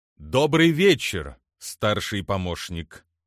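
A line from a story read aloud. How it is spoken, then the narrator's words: Solemn greeting. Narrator (Russian): торжественно поприветствовал его Турфиан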